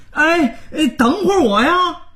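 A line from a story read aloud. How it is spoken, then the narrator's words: Hurried shout. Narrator (Chinese): 他连忙大喊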